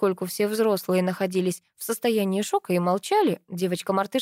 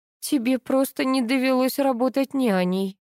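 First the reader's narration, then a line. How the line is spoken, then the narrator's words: Groaning. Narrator (Russian): простонала Вера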